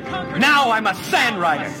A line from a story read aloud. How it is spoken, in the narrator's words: He yelled proudly